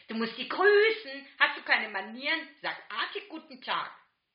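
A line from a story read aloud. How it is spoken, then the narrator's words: Shouted. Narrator (German): schreit dann noch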